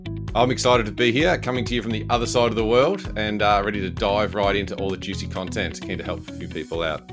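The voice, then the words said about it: Australian accent. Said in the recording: “If you couldn't tell from his accent, ... he's Australian”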